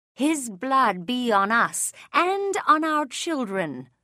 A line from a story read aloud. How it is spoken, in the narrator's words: The Jews had shouted